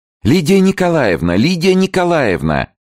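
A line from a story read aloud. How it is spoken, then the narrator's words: Loud distant call. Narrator (Russian): громко звал мысленистый голос Алферова в коридоре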